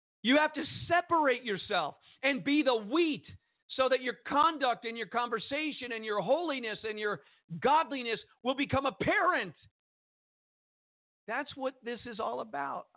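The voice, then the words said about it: Passionate shouting. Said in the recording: “I don't know why I'm shouting.”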